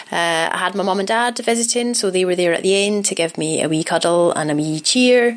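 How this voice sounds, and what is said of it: Strong Scottish accent. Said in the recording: “my accent has gone spectacularly Scottish. I don't actually speak like this in real life, but when my parents are around, I revert to my old uh, my old accent.”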